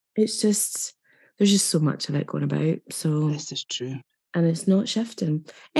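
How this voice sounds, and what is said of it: Husky, ill-sounding voice. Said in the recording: “as everybody can hear, I'm still ill ... forgive my voice ... lovely and husky ... mute myself numerous times to cough”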